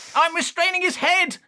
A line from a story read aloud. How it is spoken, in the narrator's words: shouted Howard